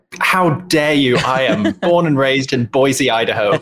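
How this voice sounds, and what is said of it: English accent. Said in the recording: “that is not an American accent ... Where's that fun accent from? ... I am English”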